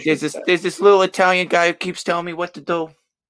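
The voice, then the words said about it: Imitates another person's voice, poorly. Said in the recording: “my Mike Tyson impression. It's not great.”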